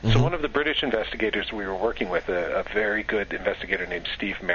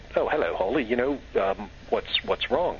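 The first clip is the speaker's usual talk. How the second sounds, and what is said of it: Bad put-on British accent. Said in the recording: “Which is the worst British accent you're ever going to hear, the one that I just did.”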